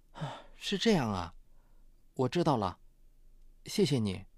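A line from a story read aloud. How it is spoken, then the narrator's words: Sighing. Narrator (Chinese): 刘美荣叹道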